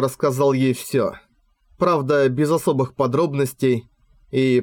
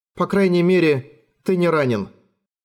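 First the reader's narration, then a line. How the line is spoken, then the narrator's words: Sighing. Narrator (Russian): вздохнула Катрина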